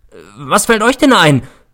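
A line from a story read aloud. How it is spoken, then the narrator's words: Angry shout. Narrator (German): schrie ich sie an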